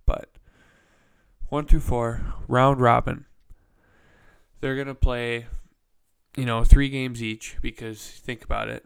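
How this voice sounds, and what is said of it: Nasal, congested voice. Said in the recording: “sorry if I'm sniffling a lot too ... My voice sounds a little nasally. My allergies are kicking my ass today.”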